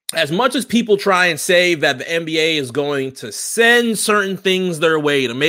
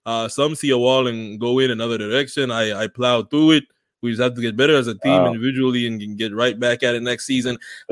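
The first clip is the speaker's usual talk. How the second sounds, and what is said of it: Mediocre put-on Greek accent. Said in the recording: “Is that your Greek accent? ... It needs work. It might be better than Shaq's. It might be better than Shaq's Greek accent, but it needs a little bit of work.”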